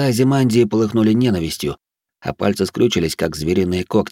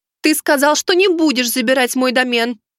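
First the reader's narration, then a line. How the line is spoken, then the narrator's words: Shouted. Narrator (Russian): выкрикнула она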